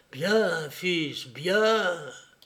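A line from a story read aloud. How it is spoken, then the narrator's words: Approving tone. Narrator (French): Il disait seulement d'un ton approbateur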